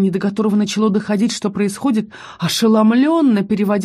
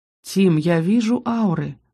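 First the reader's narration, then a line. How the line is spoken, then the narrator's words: Gentle reminder. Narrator (Russian): мягко напомнил лорд Ярби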